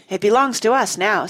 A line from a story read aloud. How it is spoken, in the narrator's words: said Jane